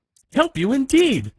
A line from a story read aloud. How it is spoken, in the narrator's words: exclaimed Medio Pollito